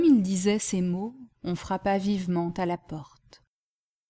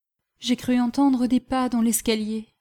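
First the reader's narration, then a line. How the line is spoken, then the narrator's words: Apologetic, trembling voice. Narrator (French): dit-elle en s'excusant d'une voix tremblante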